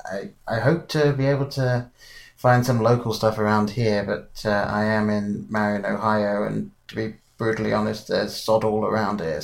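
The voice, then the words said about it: British accent. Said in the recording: “You clearly have a British accent.”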